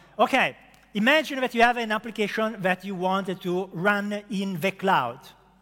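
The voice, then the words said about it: Thick foreign accent. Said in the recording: “Is my accent too thick? ... I can't do anything about the accent”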